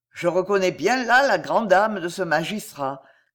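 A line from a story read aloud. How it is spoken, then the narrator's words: Convict's sad cry. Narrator (French): s'écria d'une voix triste le forçat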